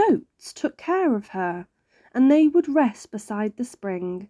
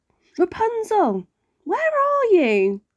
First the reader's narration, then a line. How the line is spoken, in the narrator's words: The prince came back and shouted up